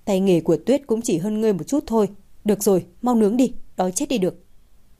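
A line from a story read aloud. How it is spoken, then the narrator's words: Laughing. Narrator (Vietnamese): Ưng bật cười một tiếng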